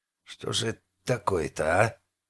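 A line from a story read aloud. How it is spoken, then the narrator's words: Guard chief's quiet swearing. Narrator (Russian): Негромко матерился начальник караула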